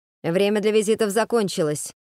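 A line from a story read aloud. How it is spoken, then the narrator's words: Curt sharp remark. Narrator (Russian): резко бросает первый генерал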